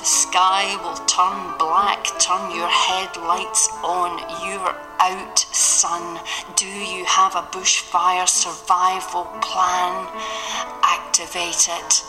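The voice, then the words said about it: Scottish accent. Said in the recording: “how good is that Scottish accent? ... that terrific accent”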